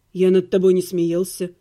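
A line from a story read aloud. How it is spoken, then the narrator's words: Calm reply. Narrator (Russian): спокойно ответил Ирга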